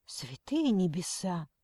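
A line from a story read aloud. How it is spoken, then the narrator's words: Muttered. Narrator (Russian): пробормотала она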